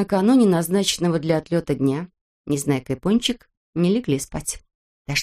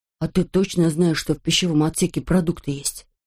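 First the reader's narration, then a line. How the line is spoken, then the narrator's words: Plain. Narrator (Russian): спросил Пончик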